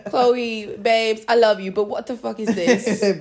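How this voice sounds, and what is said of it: Put-on British accent. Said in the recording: “British accent.”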